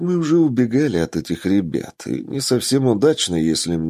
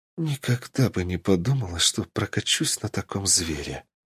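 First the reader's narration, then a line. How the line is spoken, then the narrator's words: Awed whisper. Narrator (Russian): прошептала она в восхищении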